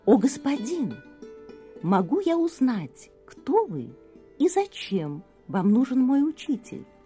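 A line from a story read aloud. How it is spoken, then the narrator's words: Soft polite question. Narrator (Russian): очень мягко и вежливо спросил начальник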